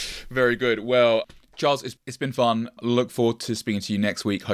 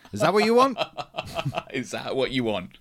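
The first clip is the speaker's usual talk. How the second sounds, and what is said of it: Put-on Nigerian accent. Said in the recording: “a terrible Nigerian accent ... Take that accent out of your mouth.”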